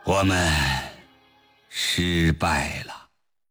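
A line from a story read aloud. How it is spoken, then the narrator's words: Heavy sigh. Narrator (Chinese): 李振西长叹了一声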